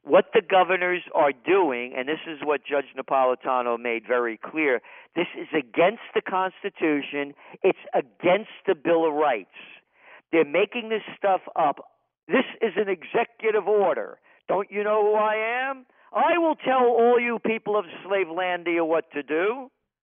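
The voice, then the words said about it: Passionate, upset, heated delivery. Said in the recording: “you can hear it in my voice, my passion ... I've never heard you more, I'm not going to use the word angry, but more upset”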